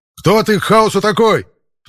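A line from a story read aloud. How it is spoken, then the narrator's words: Sudden yell. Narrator (Russian): Внезапно заорал Саботини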